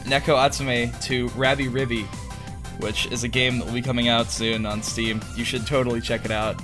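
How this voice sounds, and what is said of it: Hoarse, strained voice. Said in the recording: “My my voice is a little hoarse, ... I knocked my voice out uh, pretty hard ... I might I might squeak a little like I'm going through uh, I'm, um, like I'm going through puberty all over again”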